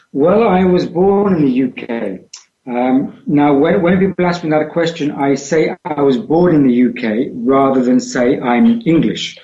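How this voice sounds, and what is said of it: British accent. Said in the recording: “hierarchical British accent”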